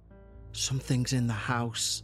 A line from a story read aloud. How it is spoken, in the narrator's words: whispered